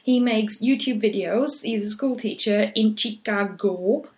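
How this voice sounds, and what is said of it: Funny put-on accent. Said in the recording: “I say all these things in a funny accent”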